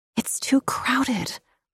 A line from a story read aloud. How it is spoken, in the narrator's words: Laura whimpered